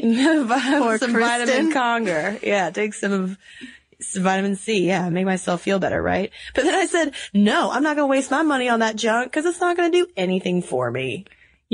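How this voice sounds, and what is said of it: Raspy, hoarse voice. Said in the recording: “my raspy voice ... So you have been raspy this week. ... It's been a raspy week. I've been a little under the weather.”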